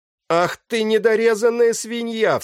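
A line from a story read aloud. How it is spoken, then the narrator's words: Sharp cry. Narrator (Russian): вскрикнул капитан Мизович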